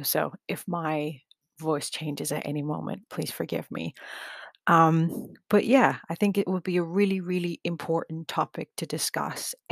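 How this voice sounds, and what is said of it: Slightly scratchy voice. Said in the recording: “my voice is a little bit scratchy. I have been quite sick”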